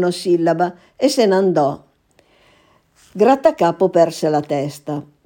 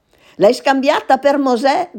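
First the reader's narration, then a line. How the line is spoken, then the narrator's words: Shouted furiously. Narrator (Italian): gridò inviperito Grattacapo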